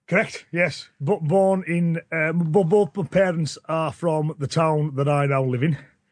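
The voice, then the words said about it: Northern English accent. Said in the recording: “from your accent, not from round these parts ... more up north”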